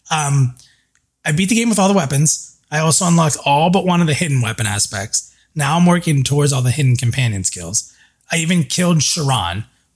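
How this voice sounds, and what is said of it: Rough, worn-out sounding voice. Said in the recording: “my voice is still a mess. So you guys probably hear that a little bit through this.”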